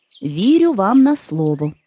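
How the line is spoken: Plain. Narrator (Ukrainian): відповів Страшило

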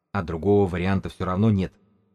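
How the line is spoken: Forced calm, hiding nerves. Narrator (Russian): ответил книжник спокойно, но Белка видела, что он совсем-совсем не спокоен

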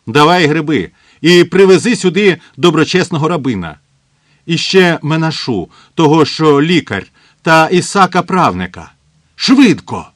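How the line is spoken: Shouted. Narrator (Ukrainian): до Біцля-Біцля крикнув

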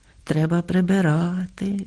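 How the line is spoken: Sighed. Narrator (Ukrainian): зітхнула Софрониха

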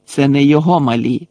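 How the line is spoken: Contemptuous bark. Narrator (Ukrainian): презирливо гаркнув Бейн

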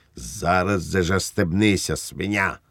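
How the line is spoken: Barked shout. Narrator (Ukrainian): гаркнув Швейк

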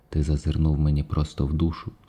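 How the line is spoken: Sad. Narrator (Ukrainian): сумно промовив Сіддхартха

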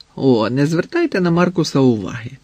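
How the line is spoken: Cheerful. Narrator (Ukrainian): сказав Джошуа, весело

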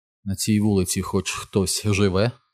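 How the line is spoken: Quiet question. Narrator (Ukrainian): тихо спитала Беверлі

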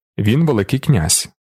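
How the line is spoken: Stern. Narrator (Ukrainian): суворо мовив Далінар

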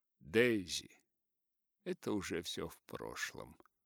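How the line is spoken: Serious tone. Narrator (Russian): сказал с серьезным тоном

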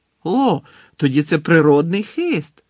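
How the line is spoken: Exclaimed. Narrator (Ukrainian): вигукнув

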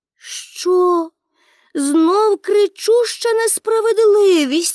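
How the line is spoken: Exclaimed. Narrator (Ukrainian): вигукнула Пеппі

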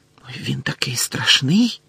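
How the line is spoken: Whisper. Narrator (Ukrainian): зашепотіла Парваті

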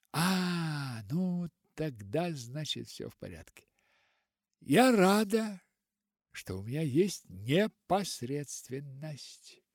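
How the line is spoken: Sigh. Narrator (Russian): Вздохнула Полианна

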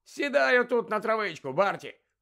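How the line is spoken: Cheerful suggestion. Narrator (Ukrainian): весело запропонував йому Лудо

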